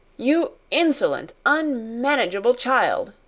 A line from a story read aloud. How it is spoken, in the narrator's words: she cried